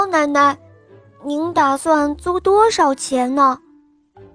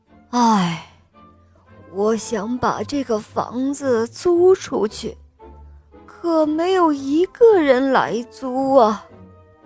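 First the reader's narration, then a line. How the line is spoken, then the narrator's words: Old woman sighing. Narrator (Chinese): 猫奶奶在叹气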